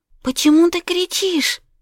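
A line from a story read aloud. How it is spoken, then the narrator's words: Frightened. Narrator (Russian): спросила Вероника испуганно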